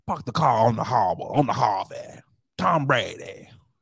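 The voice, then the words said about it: Put-on Boston accent, old man. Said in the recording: “I'm gonna work on my Boston accent. ... Like an old ass 90-year-old grandpa.”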